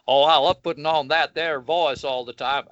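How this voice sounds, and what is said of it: Put-on Southern Texan accent. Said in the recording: “I'm going to use a completely different voice... I'll play him like a Southern Texan or somebody like that”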